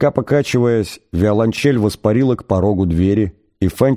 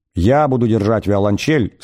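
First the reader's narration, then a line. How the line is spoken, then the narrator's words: Plain. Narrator (Russian): сказала она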